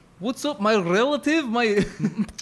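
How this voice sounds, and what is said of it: Put-on Russian-sounding accent. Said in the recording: “That sounds Russian.”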